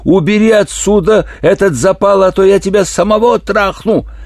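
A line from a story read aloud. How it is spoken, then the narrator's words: Yelled. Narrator (Russian): он заорал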